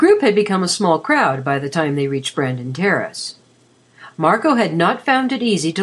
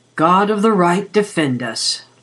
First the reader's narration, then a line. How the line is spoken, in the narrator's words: Lazarus groaned